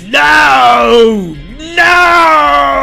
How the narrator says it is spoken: His voice catches in his throat, and he screams

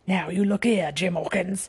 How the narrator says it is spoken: he said in a steady whisper that was no more than audible

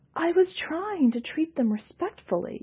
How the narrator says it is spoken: Yalnus exclaimed

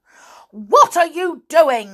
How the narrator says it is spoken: cried

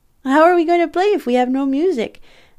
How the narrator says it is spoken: I demanded, laughing

